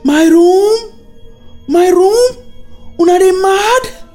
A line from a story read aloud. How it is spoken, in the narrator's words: screamed out